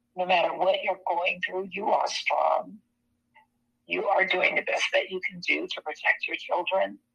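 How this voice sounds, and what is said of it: Hoarse, croaky voice. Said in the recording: “I have a frog in my throat.”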